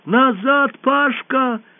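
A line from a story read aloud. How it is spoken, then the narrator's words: Shouted. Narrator (Russian): крикнула Алиса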